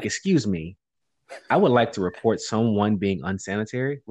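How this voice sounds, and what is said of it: Polite customer service voice. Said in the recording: “I put on a complete, my voice. It went to customer service voice.”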